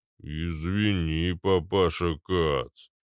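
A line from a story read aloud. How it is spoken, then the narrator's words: Booming drone. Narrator (Russian): прогудел Арнольд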